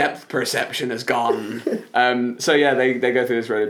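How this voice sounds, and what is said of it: Usual voice. Nothing is said of it.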